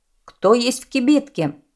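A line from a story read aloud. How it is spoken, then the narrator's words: Shout. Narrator (Russian): крикнул он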